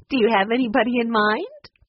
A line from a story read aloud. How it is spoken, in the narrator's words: Patsy finally laughed, too